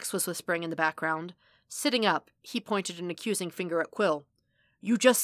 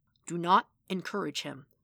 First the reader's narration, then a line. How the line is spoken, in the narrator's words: he said in an undertone